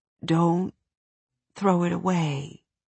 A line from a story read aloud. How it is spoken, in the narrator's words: she mumbled, her tone barely audible